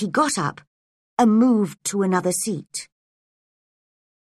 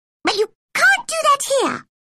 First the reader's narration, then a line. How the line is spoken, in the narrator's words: said the Dormouse crossly